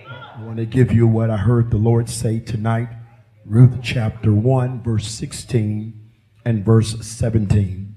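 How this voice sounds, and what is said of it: Tired, worn-out voice. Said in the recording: “As you can hear, my voice is exhausted.”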